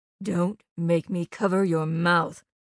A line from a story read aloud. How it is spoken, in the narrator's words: Aunt Peg growled